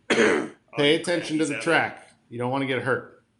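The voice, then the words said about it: Imitates another person's voice. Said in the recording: “do my best Don Cherry impersonation”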